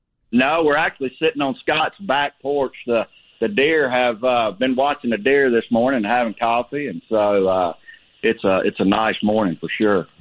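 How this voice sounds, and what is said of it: Louisiana Southern accent. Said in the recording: “this is what a Louisiana accent sounds like ... that's how folks talk from Louisiana ... Great accent.”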